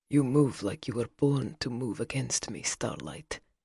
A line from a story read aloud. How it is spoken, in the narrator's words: he murmured against her ear